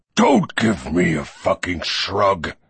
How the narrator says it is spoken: he snarled

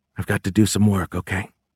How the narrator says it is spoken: whispered

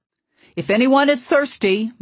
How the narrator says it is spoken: my father shouted

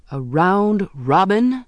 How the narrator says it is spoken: he exclaimed

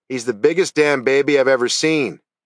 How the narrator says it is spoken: he shouted into the bunker

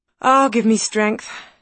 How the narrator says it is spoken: sighed Elizabeth

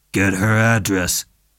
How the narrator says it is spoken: Dundee growled

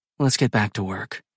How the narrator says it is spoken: she murmurs

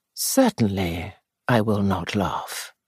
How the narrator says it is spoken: he said gently

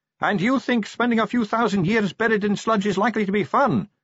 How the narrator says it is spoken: shouted Sally

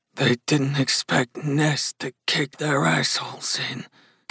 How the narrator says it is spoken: Gus muttered

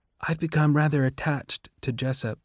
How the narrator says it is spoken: Lysistrata whispered to Coriolanus

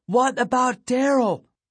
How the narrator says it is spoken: I kept shouting

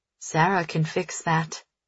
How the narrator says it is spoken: he murmurs

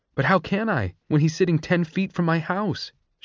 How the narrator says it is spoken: she cried

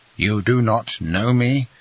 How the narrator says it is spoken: said she

